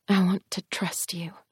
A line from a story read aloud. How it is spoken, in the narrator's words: I said quietly